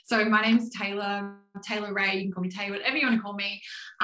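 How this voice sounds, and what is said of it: Australian accent. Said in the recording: “I'm in Melbourne in Australia, which maybe you can hear from the accent.”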